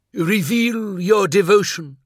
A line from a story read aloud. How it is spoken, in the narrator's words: cried